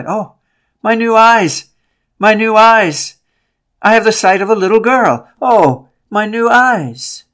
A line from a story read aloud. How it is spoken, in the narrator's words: in positive terror about putting them on her face, but at last she cried with delight